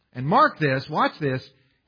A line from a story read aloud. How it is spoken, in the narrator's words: he yells at the people